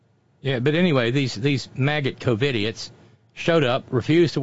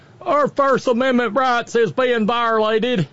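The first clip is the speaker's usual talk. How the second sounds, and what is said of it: Put-on regional accent. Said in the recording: “wrong accent for New Jersey”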